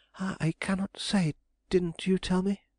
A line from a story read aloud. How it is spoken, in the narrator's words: she cried, flushing painfully